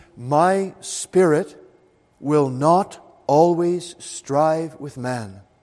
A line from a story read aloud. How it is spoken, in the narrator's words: God says very solemnly